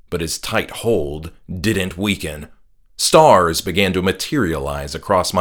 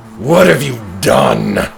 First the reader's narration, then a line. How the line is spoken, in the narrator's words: Pastor Akka growled